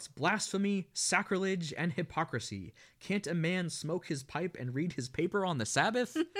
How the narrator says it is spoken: Dad shouts

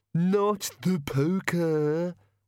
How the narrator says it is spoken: whined the bogeyman

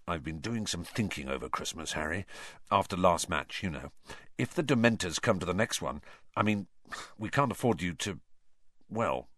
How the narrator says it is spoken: he said, lowered his voice, and said

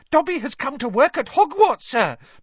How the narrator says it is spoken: Dobby squealed excitedly

